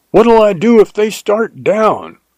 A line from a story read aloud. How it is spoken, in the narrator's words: I yelled after him